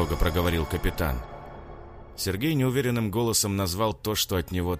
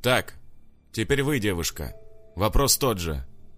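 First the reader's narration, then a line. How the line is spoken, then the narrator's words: Stern tone. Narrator (Russian): строгим тоном сказал полицейский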